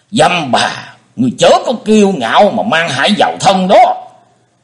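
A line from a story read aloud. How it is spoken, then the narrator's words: Thunderous roar. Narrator (Vietnamese): Nghe thấy giọng nói như trêu chọc của đối thủ, Linh Châu đạo nhân gầm lên như sấm chưởng nổ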